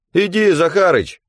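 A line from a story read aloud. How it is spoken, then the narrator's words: Shouting. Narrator (Russian): кричал Васёка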